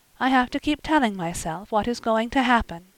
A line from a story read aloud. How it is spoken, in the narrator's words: she said softly